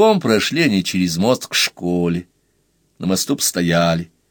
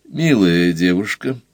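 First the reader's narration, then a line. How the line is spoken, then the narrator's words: Gentle interruption. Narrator (Russian): мягко прервал ее Бадин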